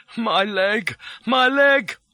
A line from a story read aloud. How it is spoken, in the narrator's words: moaned